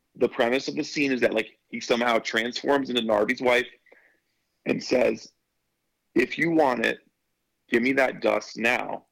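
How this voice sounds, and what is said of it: Strained, failing voice. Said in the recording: “sorry, I'm losing my voice.”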